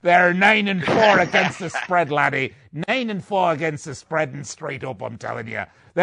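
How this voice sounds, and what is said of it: Growly pirate character voice. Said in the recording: “do my pirate voice”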